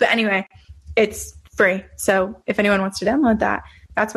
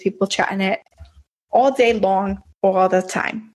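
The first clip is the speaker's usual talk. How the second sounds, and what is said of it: Jersey mom accent. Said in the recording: “Nice accent. ... Very Jersey mom of you.”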